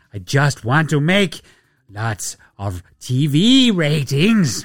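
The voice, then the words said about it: Imitates another person's voice, with accent. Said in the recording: “The Adam Silver voice ... I don't know where the accent bit came. ... There's your Adam Silver.”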